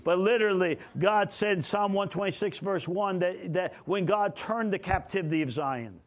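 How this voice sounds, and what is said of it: Fast-talking New York and Oklahoma accent. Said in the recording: “I'm a New York Okie, talk New York speed. Okie accent makes me a Yokie.”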